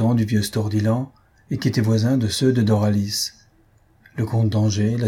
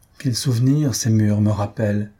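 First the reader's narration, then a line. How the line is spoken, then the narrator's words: Sighing. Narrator (French): dit-elle en soupirant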